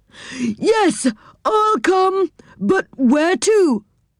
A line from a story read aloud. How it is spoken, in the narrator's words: shouted back